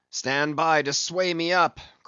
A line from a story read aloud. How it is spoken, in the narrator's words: cried Ahab